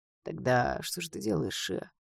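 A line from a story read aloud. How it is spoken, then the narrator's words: Unexpectedly soft man's question. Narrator (Russian): неожиданно мягко спросил мужчина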